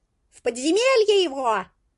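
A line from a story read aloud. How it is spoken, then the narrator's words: Shouting. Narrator (Russian): крикнул кто-то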